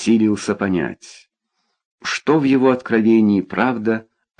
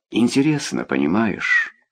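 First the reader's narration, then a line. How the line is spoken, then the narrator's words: Young man sighing. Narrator (Russian): вздохнул молодой человек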